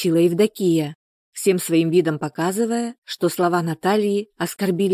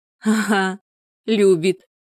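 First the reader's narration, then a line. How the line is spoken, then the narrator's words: Laughing. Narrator (Russian): рассмеялась Евдокия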